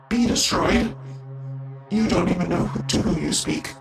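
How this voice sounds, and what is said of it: Distorted voice-changer character voice. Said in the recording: “obviously has a voice changer on”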